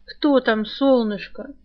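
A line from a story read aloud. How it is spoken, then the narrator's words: Sleepy male voice, offstage. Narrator (Russian): сонно поинтересовался мужской голос за теткиной спиной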